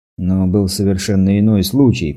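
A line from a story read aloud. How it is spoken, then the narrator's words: Defensive grumble. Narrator (Russian): проворчал, оправдываясь, Мак Рудер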